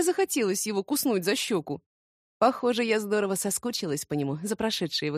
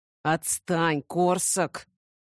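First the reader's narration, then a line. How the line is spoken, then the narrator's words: Hissing. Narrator (Russian): прошипел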